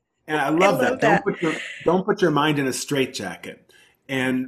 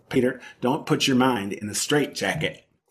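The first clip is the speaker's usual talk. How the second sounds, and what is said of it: Southern accent impression. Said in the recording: “I have to quote her in her Southern accent because that's how she talks”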